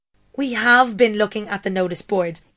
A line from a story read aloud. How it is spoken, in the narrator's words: Yaz yelled